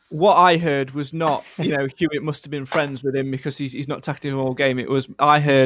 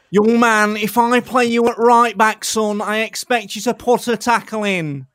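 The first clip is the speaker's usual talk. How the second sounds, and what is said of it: Scathing imitation of another person's voice. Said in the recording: “that scathing impression”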